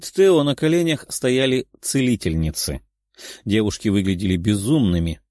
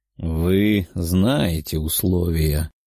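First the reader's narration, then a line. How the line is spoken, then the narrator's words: Sullen young man. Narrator (Russian): хмурым голосом ответил парень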